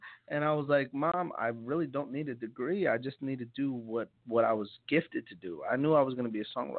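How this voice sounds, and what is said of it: Usual voice. Nothing is said of it.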